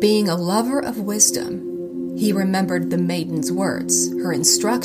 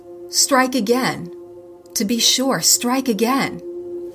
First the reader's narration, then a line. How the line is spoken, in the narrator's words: the iron mortar and pestle cried out